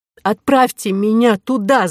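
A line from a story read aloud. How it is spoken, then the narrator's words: Shout. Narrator (Russian): закричала Кора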